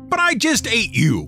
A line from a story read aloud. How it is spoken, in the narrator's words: screamed the troll